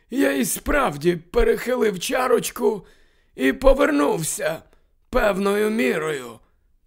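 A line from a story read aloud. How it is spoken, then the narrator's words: Muttering to himself. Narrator (Ukrainian): Дамблдор бурмотів швидше до себе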